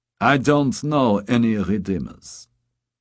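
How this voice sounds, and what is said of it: Hard German accent in English. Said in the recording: “in English with a hard German accent.”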